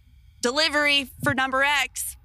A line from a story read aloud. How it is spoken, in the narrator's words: yelled